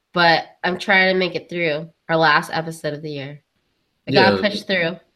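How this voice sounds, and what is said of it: Sick-sounding voice. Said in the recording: “I'm sick right now, so I don't know if you can tell by my voice.”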